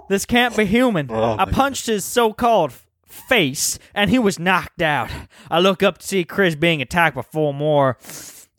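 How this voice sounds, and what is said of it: Put-on southern accent. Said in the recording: “my accent's dropped to more mid-southern”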